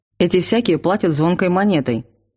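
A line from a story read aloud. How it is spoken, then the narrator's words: Cold interruption. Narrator (Russian): холодно прервал излияние трактирщика Лен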